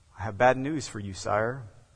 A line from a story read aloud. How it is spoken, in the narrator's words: quietly reported the servant